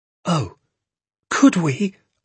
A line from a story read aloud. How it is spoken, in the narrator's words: I cried